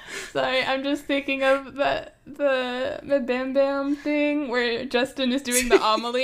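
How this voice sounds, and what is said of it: Usual voice. Nothing is said of it.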